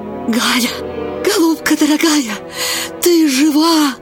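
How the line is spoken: Joyful whisper. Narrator (Russian): радостно шептала Аннушка

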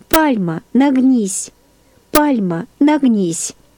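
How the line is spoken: Tender childlike voice. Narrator (Russian): сказал нежным детским голосом

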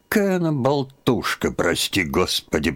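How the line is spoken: Grumbling. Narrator (Russian): проворчала Марфа Тимофеевна

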